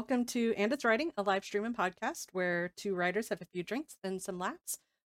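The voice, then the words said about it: Stuffy, congested voice. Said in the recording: “if I sound a little stuffy ... I finally caught COVID ... I still have the sound of COVID”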